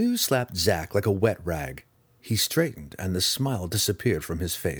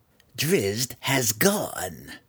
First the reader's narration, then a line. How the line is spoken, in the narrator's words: growled Malice